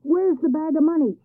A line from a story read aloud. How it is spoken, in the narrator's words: shouted the neighbors